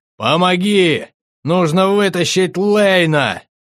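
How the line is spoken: Shouted while moving. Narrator (Russian): На ходу крикнул

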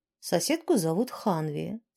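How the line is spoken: Usual calm tone. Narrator (Russian): своим обычным спокойным тоном произнес Сьяд

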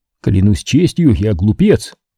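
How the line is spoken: Exclaimed. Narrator (Russian): воскликнул

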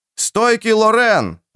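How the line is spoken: Crowd yelling from stands. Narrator (Russian): орали с трибуны

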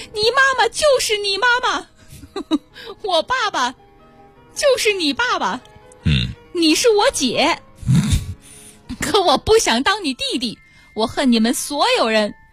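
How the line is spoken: Woman screaming hoarsely. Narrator (Chinese): 阿姨声嘶力竭地冲小佳喊道

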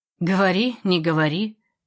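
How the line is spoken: Grumbling. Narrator (Russian): проворчала соседка

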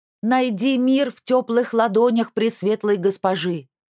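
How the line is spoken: Loud shout. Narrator (Russian): Громко крикнула она

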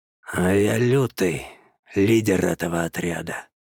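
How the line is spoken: Declaration. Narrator (Russian): заявил алкаидец

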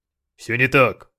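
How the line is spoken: Barking. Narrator (Russian): рявкнул Эшберн

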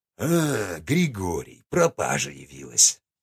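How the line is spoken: Deep booming voice. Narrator (Russian): забасил он

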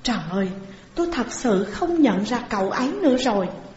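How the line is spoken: Soft exclamation. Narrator (Vietnamese): Xuân Vũ cũng khẽ thốt lên một tiếng

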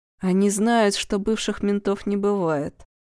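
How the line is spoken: Gloomy. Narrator (Russian): мрачно сказал Черенков

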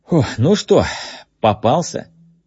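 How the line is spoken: Breathless exhale. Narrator (Russian): выдохнул Джеймс

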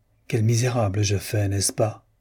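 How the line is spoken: Plain. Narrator (French): dit-elle

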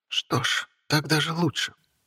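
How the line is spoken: Whispered. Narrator (Russian): прошептала она

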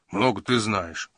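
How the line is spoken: Grumbling. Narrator (Russian): проворчал Джина

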